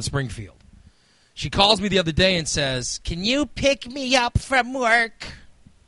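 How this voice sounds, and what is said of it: Imitates another person's voice. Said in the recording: “that is exactly how she sounds ... The accent might not be correct, but that's the tone and level and everything that she ... Yeah, it's perfect.”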